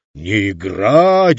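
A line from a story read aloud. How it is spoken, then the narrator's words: Roar. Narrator (Russian): взревел актер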